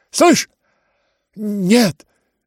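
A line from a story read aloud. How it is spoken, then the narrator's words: Quick, frightened. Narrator (Russian): Так же быстро и испуганно выговорил князь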